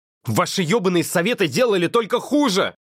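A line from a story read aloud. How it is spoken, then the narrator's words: Yelling. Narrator (Russian): орал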